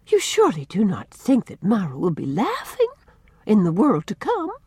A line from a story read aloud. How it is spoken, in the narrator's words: said Susan in a shocked tone